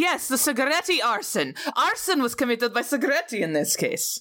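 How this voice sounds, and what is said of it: Usual voice. Nothing is said of it.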